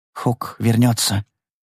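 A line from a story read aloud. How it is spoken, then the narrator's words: Whisper. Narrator (Russian): прошептал Тай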